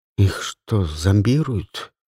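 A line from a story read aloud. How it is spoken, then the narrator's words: Quiet. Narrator (Russian): тихо проговорила Люси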